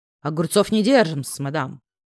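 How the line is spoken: Mocking snort. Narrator (Russian): с издевкой хмыкнул служитель стакана и бутылки, явно студент

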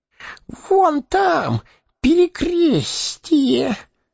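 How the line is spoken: Hoarse wheezing. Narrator (Russian): сипел Горлум

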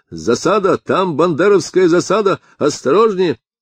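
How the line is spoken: Shouting. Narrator (Russian): Он закричал

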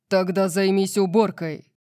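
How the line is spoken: Menacing growl. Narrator (Russian): прорычал Орион, и его тон заставил меня задрожать

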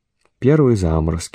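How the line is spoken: Sighing. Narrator (Russian): вздохнул он

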